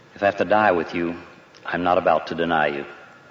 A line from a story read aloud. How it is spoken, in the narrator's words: said evenly